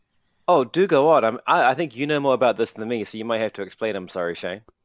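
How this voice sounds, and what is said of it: New Zealand accent. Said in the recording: “I'm finding your Kiwi accent ... I'm finding your Kiwis coming through more often now”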